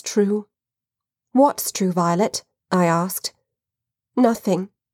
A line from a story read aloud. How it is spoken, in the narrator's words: she said in a low voice